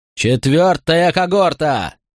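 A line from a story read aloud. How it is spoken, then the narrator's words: Roared. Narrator (Russian): взревел Гортензий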